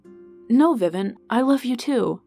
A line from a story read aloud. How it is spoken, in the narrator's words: Alice cut him off, exclaiming